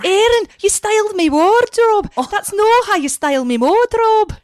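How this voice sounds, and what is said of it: Poor put-on Scottish accent. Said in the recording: “how's your Scottish accent? ... it's excellent. No, it's not good at all. ... It's terrible. ... Oh, that's terrible.”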